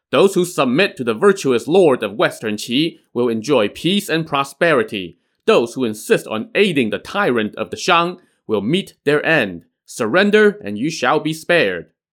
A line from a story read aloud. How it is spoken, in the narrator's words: ride around and shout